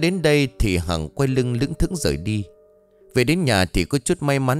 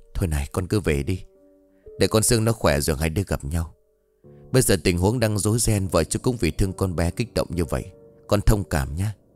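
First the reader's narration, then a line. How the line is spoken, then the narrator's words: Whispering. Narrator (Vietnamese): ông Trung thì thầm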